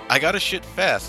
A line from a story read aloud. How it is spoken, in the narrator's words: laughed Shigeru Miyamoto